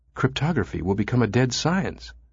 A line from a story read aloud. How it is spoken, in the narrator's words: she whispered